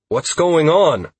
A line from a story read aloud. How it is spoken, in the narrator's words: I called out